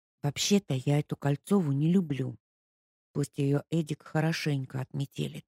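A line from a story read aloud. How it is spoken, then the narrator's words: Whispered. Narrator (Russian): шепнула Ника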